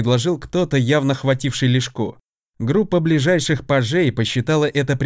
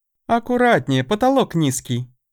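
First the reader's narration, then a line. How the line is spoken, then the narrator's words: Cheerful. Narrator (Russian): весело напомнила Дея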